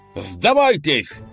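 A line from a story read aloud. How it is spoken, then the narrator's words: Excited shout. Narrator (Russian): азартно крикнул Леонид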